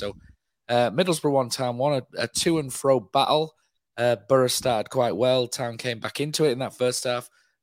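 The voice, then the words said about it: Strained, worn-out hoarse voice. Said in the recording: “my voice is absolutely done. I've had a chest infection all week. I'm really struggling.”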